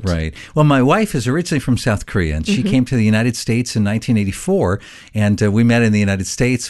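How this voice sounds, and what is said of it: American English accent. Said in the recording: “your accent that you're an American guy”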